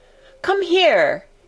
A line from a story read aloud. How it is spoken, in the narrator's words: he shouted to Dickon